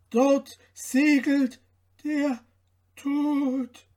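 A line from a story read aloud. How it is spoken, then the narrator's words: Calling out. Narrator (German): rief er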